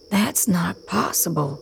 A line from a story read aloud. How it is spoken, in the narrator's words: Raziel whispers